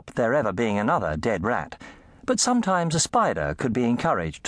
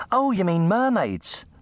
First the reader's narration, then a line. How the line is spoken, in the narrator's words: the girl said, laughing